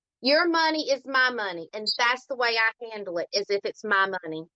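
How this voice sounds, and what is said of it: Southern US accent. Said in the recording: “this Southern accent ... that Southern draw”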